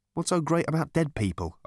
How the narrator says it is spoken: asked Arthur, nervously

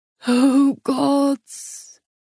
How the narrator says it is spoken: the father moaned

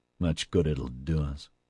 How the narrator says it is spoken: Oscar grumbled

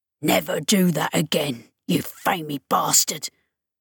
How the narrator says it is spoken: Rollo hissed in his ear

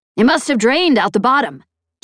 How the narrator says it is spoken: Chet said

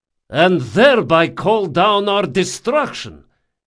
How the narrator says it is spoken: shouted Rodanov

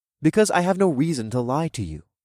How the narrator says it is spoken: said in a calm voice

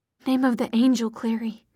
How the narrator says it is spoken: he breathed

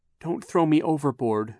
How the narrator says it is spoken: pleaded

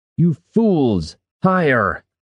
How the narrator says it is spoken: Jinzan shouted

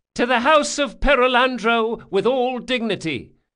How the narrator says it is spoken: Gritting his teeth, he called out

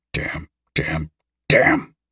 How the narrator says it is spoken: Dennis muttered

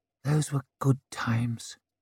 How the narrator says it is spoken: whispered

